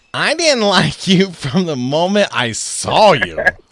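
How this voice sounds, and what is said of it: Imitates another person's voice. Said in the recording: “I'm going to try to do this in my Roseanne voice”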